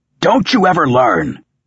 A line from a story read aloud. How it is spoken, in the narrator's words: Croaker snarled